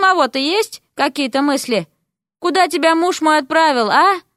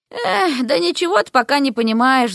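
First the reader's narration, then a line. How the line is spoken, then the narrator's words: Sighing. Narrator (Russian): вздохнула ведьма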